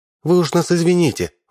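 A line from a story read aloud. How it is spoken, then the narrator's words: Sighing. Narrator (Russian): вздохнула женщина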